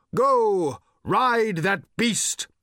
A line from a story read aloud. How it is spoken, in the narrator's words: shouted Thrashbarg